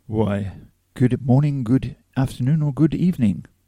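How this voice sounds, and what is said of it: Grand, showy intro delivery. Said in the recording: “That's a very impressive intro there from you.”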